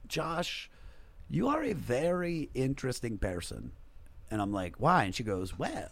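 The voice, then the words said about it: Thick Serbian accent. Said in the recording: “she's got like a thick Serbian accent.”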